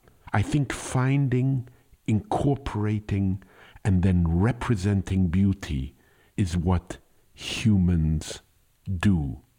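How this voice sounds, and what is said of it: Speaks with a noticeable accent. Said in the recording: “I don't know if it's your accent or the words”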